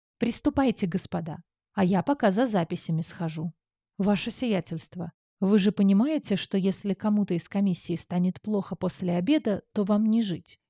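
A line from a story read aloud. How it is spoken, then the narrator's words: Quiet question. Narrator (Russian): тихо поинтересовался герцог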